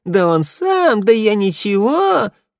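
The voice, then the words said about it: Mocking imitation of Sanda. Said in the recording (Russian): “передразнила”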